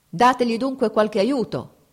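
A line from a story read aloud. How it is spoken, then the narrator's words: Shouting. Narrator (Italian): gridò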